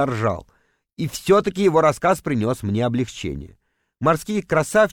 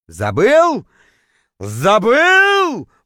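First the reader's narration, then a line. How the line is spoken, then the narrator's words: Roaring, howling. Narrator (Russian): взревел, точнее, даже завыл я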